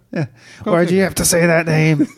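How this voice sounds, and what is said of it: Imitates another person's voice. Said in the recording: “my Ben Affleck impersonation”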